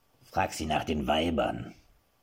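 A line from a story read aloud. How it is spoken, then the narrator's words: Murmured. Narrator (German): raunte Gimpel seinem Herrn zu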